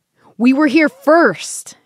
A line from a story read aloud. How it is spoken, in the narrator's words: she yells